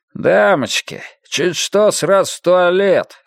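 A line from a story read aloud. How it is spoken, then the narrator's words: Scoffing. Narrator (Russian): хмыкнул он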